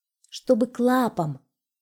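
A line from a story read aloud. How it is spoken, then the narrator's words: Plain, hedgehog. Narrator (Russian): сказал ежик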